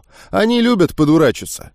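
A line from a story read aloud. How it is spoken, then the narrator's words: Sighing, then serious. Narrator (Russian): Парень снова вздохнул, но посерьезнев тут же добавил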